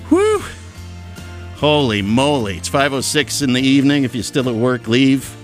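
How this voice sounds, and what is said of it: Out of breath, panting. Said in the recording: “I'm out of breath just from going down the stairs”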